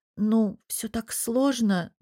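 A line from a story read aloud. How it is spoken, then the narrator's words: Hesitant. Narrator (Russian): начала я неуверенно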